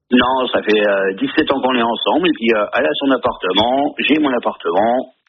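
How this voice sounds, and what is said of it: Slight regional French accent. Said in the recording (French): “avec un petit accent”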